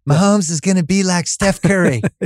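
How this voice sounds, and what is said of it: Imitates another person's voice. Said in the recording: “You want to do my imitation of your imitation of me? ... I don't sound like that at all”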